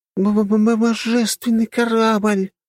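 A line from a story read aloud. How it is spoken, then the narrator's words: Exclaiming. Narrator (Russian): воскликнула Лена, глаза которой горели подобно фонарикам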